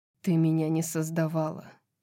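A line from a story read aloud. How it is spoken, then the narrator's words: Cold objection. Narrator (Russian): холодно возразила Зриэль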